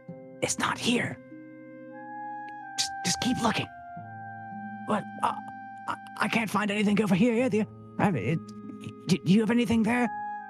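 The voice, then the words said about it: Whispered character voices. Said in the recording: “whispering”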